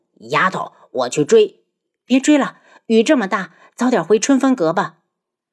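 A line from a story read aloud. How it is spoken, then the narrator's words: Furious. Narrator (Chinese): 漫天妖大怒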